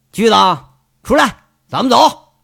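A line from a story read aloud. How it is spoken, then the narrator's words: Called out. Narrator (Chinese): 杨伟摇摇头，喊了一句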